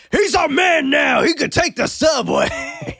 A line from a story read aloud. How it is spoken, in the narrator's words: Joey's brother, Billy, who's in the other car, yells